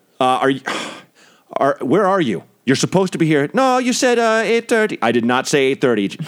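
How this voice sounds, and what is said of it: Thick Jamaican accent. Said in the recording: “real thick West Indian, you know, Jamaican accent”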